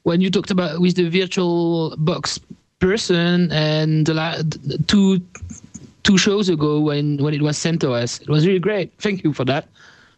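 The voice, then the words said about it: Strong French accent in English. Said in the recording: “I'm actually a French guy, so I hope you will understand my English is not perfect and I got a strong accent.”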